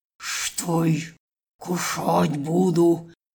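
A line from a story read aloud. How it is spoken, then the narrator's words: Irritable hiss. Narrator (Russian): зашипела змеюка, у которой до ужаса чесалась спина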